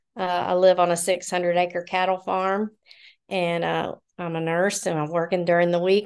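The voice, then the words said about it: Southern American accent. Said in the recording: “I'm Southern. I sound Southern. I have an accent.”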